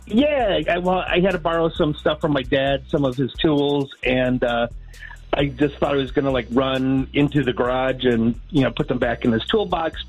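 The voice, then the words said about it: Midwestern American accent. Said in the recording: “my accent, but I'm originally from the Midwest”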